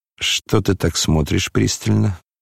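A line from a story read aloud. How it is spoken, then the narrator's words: Mutter. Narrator (Russian): пробормотал он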